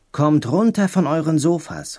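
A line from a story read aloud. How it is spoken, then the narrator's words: Called out. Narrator (German): rief Obama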